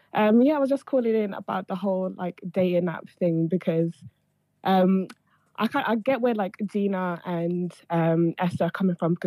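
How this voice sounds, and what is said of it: Sick, slightly odd-sounding voice. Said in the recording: “I'm sick, so my voice might sound a bit weird”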